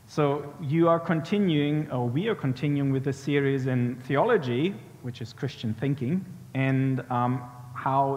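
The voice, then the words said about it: Speaks with an accent. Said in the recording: “I hope you can bear with the accent.”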